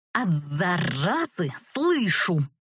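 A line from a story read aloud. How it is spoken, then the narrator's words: Angry hoarse rasp. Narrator (Russian): Неоригинально прохрипела я, с трудом подавляя желание вцепиться в него еще и клыками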